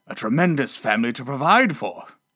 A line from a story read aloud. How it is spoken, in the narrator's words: muttered Scrooge